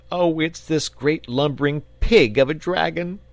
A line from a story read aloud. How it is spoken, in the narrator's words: sobbed the boy